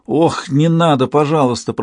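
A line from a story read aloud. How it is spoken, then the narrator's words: Moaning. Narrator (Russian): простонал Рейн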